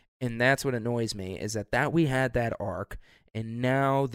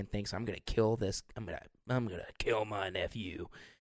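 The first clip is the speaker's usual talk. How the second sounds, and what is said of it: Put-on southern accent. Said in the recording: “I did a southern accent there”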